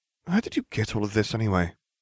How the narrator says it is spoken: Hermione sighed and said

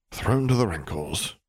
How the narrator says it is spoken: he muttered lowly

